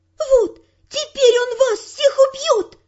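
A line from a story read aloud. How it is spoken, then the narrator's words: Triumphant shout. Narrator (Russian): победоносно закричала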